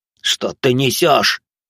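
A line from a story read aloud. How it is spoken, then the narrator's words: Indignant roar. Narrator (Russian): возмущенно проревел вожак бандитов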